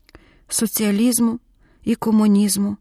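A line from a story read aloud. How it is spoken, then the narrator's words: Exhausted, grieving whisper. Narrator (Ukrainian): прошепотіла виснажена, згорьована Оля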